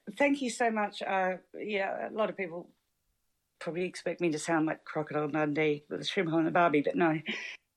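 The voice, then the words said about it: Australian accent. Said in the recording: “Oh, are you Scottish? ... No, Australian. ... I misheard your accent initially.”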